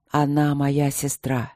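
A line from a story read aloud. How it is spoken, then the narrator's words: Hoarse. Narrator (Russian): сипло сказал он наконец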